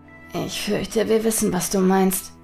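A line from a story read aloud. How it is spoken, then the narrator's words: Murmured. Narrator (German): murmelte Hotake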